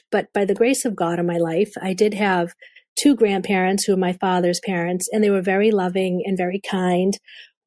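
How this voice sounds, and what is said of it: Boston accent. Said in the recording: “I hear your Boston accent”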